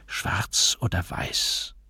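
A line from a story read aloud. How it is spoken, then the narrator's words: Whispered question. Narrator (German): der Wirt oder sein Abgesandter fragte flüsternd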